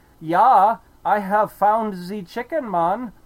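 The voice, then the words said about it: Poor imitation of German accent. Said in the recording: “I'm not very good at the German accent.”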